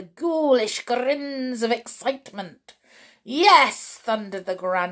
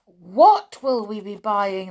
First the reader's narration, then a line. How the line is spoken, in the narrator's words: they cried